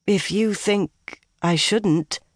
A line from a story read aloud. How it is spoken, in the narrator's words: Nynaeve replied hesitantly